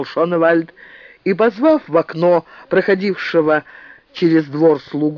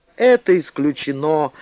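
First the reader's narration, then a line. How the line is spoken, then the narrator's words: Disappointed drawl. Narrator (Russian): разочарованно протянул Шоневальд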